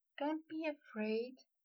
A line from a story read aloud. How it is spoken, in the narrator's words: Luna murmured